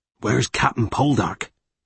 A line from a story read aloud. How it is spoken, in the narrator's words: Tom Carn said, his voice having hardened again at her silence